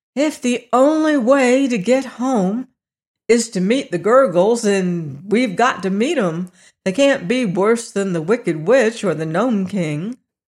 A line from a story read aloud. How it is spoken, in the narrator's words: Dorothy said with a sigh